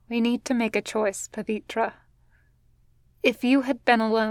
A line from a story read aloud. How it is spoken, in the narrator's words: Gwen says quietly